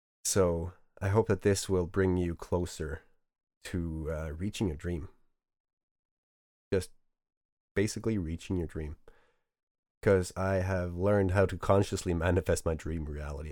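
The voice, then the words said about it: Sick, strained voice with stuttering. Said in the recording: “sorry for my voice and my stuttering. I'm sick. Trying not to cough my lungs out.”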